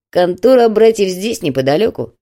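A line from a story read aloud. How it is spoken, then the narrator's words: Grumbling. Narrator (Russian): проворчал Крепыш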